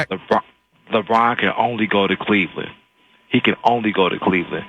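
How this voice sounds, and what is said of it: Radio announcer voice. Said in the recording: “I hear your radio voice, man. Very nice.”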